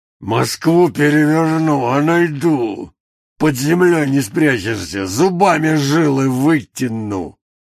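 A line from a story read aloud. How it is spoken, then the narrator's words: Hoarse rasp. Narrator (Russian): прохрипел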